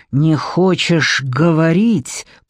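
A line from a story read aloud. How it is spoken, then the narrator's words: Hissing. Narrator (Russian): прошипел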